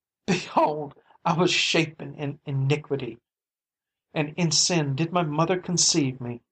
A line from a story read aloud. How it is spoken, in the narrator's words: she cried out